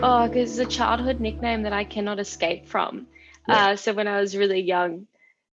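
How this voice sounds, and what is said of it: Thick Australian accent. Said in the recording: “you've got that thick Aussie accent”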